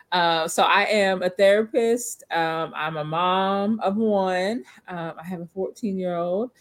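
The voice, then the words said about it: Kentucky accent. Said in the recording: “I am coming to you all the way from Bowling Green, Kentucky. You probably hear the accent, I know.”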